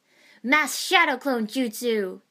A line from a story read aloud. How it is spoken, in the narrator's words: He roared